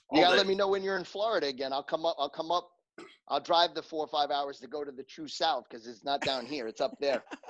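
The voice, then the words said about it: Pleasant regional accent. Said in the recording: “this guy's accent, I can listen to this all day ... This accent.”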